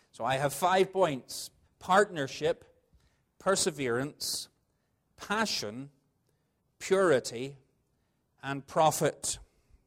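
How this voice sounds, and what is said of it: Northern Irish accent. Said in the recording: “I preach a little longer in Northern Ireland ... the strange accent”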